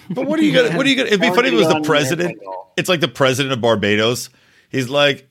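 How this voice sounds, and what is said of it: Usual voice. Nothing is said of it.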